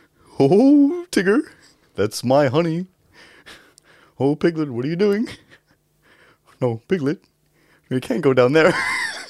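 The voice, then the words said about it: Winnie the Pooh character voice. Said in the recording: “best Winnie the Pooh impression”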